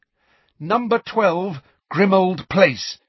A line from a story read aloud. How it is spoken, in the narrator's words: Harry said loudly and clearly